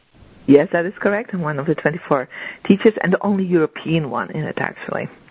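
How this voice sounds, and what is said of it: European accent. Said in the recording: “the only European one. And I love your accent”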